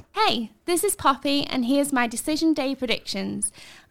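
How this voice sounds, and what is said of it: Put-on posh voice. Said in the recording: “What's with the posh voice? ... She's a northerner ... she's from Yorkshire ... I think she's putting it on.”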